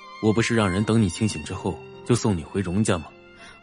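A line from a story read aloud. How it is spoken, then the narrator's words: Even, moderate voice. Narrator (Chinese): 荣寒生…声音不高不低的说道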